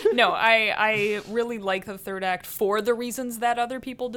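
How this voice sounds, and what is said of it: Usual voice. Nothing is said of it.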